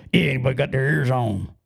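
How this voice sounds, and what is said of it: Deliberately deeper voice with slang. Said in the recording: “I would make my voice a little more deeper, and I put a little slang into it.”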